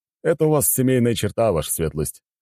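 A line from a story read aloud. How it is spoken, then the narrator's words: Amused snort. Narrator (Russian): хмыкнул Калинин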